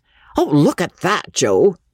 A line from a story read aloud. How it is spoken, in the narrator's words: the young showman exclaimed, without too much elegance